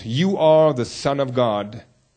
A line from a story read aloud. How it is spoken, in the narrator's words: evil spirits ... they cried out